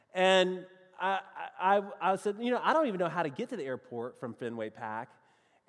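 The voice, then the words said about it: American Southern accent. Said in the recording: “in my best southern accent, which is really the only way I know how to talk”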